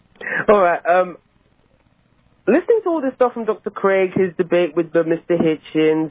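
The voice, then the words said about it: Mixed accent, British-sounding. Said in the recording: “You sound just like all the people in the audience ... My accent is a weird composite of living all over the place ... it's still good”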